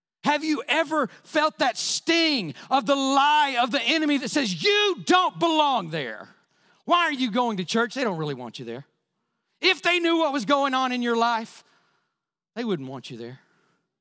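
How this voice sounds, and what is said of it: Yelling excitedly while preaching. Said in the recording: “why are you yelling? Because this is how excited I get”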